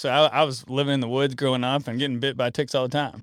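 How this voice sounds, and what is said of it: Rural country accent. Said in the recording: “if you can hear my accent, then I'm a country boy”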